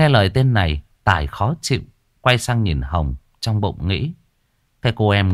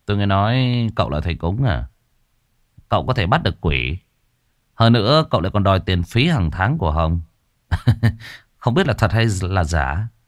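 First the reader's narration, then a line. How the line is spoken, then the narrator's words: Sarcastic man. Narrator (Vietnamese): anh ta quay sang Tài, nói bằng giọng điệu mỉa mai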